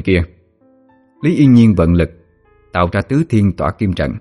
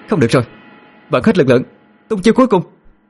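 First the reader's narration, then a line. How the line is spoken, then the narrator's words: Shout. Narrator (Vietnamese): Yên Nhiên quát lên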